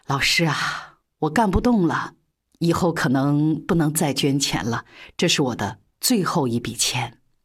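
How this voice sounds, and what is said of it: Weak, feeble voice. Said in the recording (Chinese): “用虚弱的声音说”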